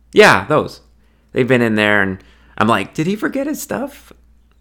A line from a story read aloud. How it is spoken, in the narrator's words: The nerve-inspired laughter, she continued